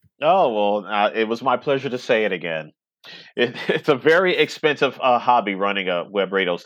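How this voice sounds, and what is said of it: Usual voice. Nothing is said of it.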